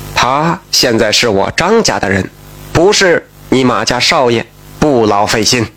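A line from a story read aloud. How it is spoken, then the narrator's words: Calm, indifferent. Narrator (Chinese): 张香如却淡淡的说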